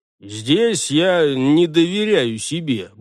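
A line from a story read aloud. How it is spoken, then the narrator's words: Grumbled. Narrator (Russian): буркнул он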